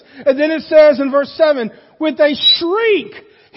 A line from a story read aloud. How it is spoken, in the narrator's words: he screamed